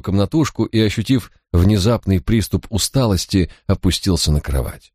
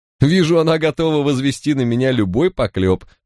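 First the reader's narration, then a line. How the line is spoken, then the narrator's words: Laughing. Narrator (Russian): рассмеялся Барак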